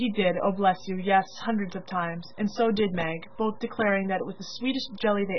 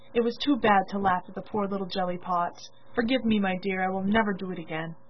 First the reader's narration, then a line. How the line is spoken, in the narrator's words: saying tenderly